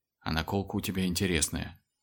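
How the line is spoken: Very quiet. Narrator (Russian): Вовсе уж тихо сообщил Батюшев

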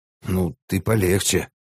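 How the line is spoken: Grumbling. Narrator (Russian): пробурчал Пио

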